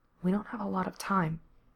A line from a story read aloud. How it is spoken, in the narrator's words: Gerard murmured back